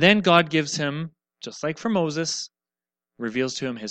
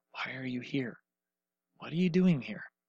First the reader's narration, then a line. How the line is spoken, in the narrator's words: the whisper says